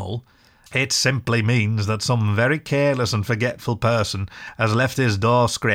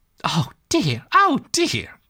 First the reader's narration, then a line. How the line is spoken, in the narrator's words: cried the rat, in despair at his obtuseness